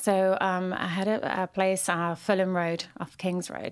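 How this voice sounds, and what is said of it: Soothing high-pitched London accent. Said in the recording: “your so accent, Fulham, so soothing ... I have such a high”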